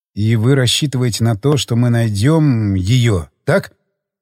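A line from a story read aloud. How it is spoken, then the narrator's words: Plain. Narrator (Russian): спросил я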